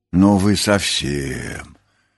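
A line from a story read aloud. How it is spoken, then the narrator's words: Muttered. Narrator (Russian): буркнула Нюша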